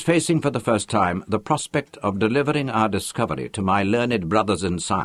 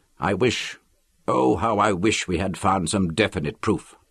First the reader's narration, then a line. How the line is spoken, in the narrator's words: said miserably